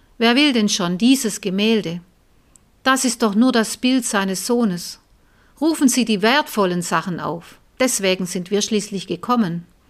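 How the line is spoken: Call from the back. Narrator (German): Endlich rief jemand von hinten

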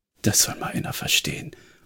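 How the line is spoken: Muttering to himself. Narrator (German): murmelte Jonah, vermutlich mehr zu sich selbst

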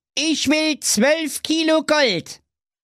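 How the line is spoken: Firm voice. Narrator (German): wiederholte der Edwin mit fester Stimme

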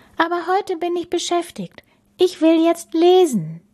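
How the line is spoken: Sighing. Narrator (German): seufzte Bella

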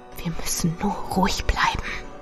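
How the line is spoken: Whispered. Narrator (German): flüsterte ich

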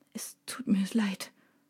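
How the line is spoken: Quiet, tearful man. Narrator (German): sagt er leise mit tränenerstickter Stimme

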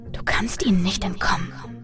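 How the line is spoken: Echoing whisper. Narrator (German): flüsterte eine Stimme, die wie ein Echo in meinem Kopf klang

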